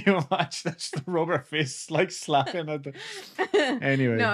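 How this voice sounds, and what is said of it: Usual voice. Nothing is said of it.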